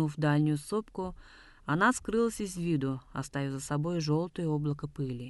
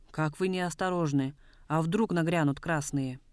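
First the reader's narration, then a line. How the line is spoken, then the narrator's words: Heated question. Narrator (Russian): Полковник Лисовский с сердцем спросил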